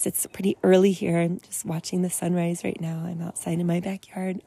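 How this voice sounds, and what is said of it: Slightly hoarse voice. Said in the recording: “my voice is a little um, hoarse.”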